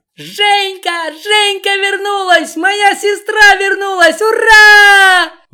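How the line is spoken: Loud indecent yelling. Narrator (Russian): Вопила девица неприлично

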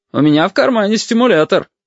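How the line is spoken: Loud, cheerful. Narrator (Russian): громко, даже весело сказал отец

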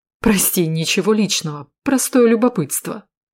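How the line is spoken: Nervous laugh. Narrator (Russian): нервно рассмеявшись, сказал

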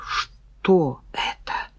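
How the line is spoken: Whispered. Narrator (Russian): прошептала Нина

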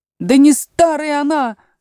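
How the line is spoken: Frenzied yell. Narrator (Russian): завопил двойнюшечка, приходя в совершеннейшее исступление

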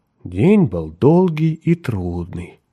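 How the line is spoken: Soothing tone. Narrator (Russian): проговорила она успокоительным тоном

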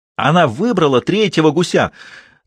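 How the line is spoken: Triumphant shout. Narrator (Russian): торжествующе закричал Ральф

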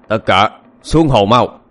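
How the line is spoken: Shouted command. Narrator (Vietnamese): Tên đầu trâu quát lên

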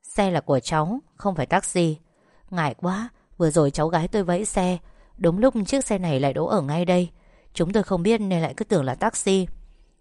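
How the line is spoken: Polite, smiling. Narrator (Vietnamese): Vũ khẽ mỉm cười rồi nói

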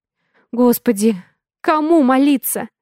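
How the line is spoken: Whimpering. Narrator (Russian): Я захныкала

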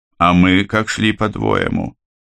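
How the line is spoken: Grumble. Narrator (Russian): буркнул Тракт

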